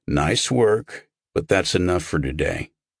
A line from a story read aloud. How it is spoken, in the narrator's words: He rumbled something Carnegie said